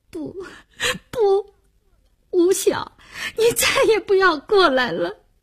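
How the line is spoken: Crying aloud. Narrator (Chinese): 林星终于哭出声来，他哭着说

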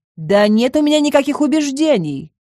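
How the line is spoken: Shout after someone. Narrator (Russian): крикнула Лючи ему в спину

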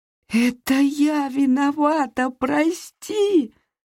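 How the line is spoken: Moaning. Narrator (Russian): застонала я

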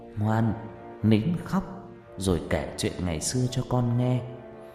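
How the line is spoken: Soft murmur. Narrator (Vietnamese): Bà Phương thủ thỉ

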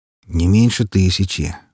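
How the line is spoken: Grim remark. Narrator (Russian): мрачно прокомментировал Трой

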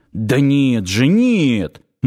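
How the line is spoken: Inner scream. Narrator (Russian): мысленно завопил

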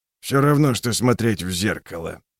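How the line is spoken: Muttering. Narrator (Russian): пробормотал он

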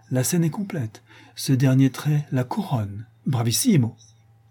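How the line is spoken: Loud, earnest tone. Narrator (French): Wolfram ajoute tout haut d'un ton pénétré

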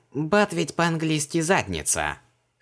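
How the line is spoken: Smirking snort. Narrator (Russian): хмыкнул Мао

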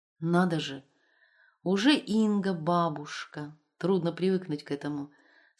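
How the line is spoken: Plain. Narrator (Russian): сказала Вера Тимофеевна

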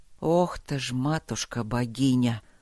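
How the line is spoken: Astonished exhale. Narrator (Russian): пораженно выдохнул мастер

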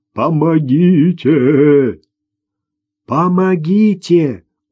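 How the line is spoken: Exhausted animal wailing humanly. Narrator (Russian): измучившееся животное заголосило человеческим голосом

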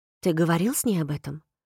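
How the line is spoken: Soft but insistent question. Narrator (Russian): Вопрос звучал мягко, но настойчиво

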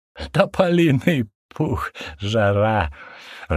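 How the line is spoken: Hysterical, tense laughter. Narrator (Russian): рассмеялся Зиневич, выплескивая свое напряжение через истеричный смех

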